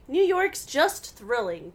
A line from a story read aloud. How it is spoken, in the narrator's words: Bess exclaimed